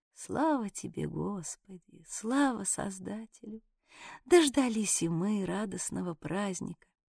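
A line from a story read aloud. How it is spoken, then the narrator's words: Old woman's kindly whisper. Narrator (Russian): старушка-нянька и с добродушной улыбкой, посматривая на ликующих детей, тихонько шептала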